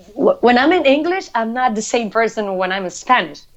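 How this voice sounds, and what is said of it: Latin American Spanish accent in English. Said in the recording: “I always going to have accent ... Mine is different. Mine is Latin accent.”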